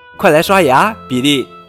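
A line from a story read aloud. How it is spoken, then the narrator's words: Calling out again. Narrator (Chinese): 妈妈又喊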